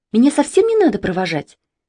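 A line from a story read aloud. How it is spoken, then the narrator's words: Cheerful. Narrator (Russian): весело говорила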